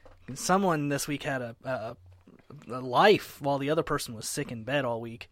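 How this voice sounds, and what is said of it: Congested, nasal-sounding voice. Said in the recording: “Upper nasal infection. So if I sound weird, that's why.”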